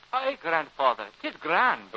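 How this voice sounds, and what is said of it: Scottish Highland accent. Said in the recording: “you talk like a bonnie Highlander”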